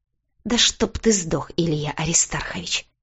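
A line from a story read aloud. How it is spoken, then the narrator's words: Hissed. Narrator (Russian): прошипела я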